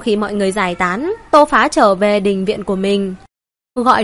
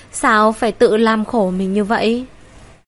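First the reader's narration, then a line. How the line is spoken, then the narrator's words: Sighing. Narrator (Vietnamese): Tô Phá thở dài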